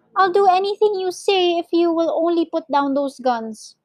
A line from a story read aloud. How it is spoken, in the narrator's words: cried Mr